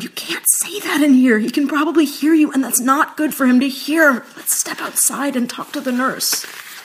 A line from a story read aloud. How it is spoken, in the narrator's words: I whispered